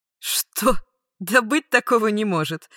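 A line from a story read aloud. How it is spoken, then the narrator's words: Scornful snort. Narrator (Russian): фыркнула дознавательница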